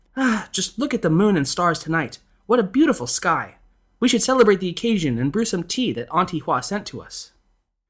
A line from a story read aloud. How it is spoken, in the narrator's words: the lady of the house exclaimed